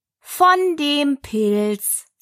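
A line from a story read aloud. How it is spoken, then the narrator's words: Caterpillar answering unasked question. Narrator (German): sagte die Raupe, gerade als wenn sie laut gefragt hätte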